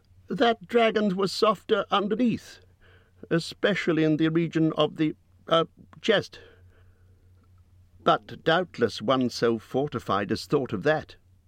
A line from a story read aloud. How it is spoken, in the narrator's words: said Bilbo in a frightened squeak